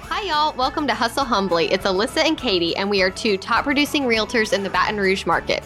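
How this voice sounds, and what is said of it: Southern American accent. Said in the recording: “They like the Southern accent, maybe.”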